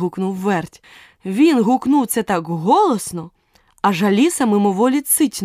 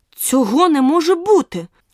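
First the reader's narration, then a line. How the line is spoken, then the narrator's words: Indignant exclamation. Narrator (Ukrainian): обурено вигукнула Аліса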